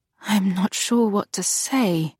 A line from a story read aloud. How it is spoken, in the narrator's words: she murmured